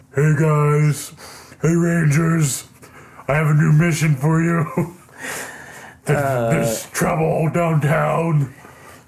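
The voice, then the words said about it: Bill Hader impression voicing Alpha. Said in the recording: “Bill Hader ... It's a good impression. ... I nailed my hater.”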